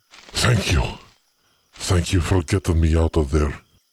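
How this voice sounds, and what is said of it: Character voice with Russian-sounding accent. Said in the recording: “His English was twinged with a Russian accent.”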